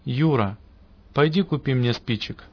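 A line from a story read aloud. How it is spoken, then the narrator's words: Calm wise pastor, no anger. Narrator (Russian): мудрый пастырь вместо гнева спокойно сказал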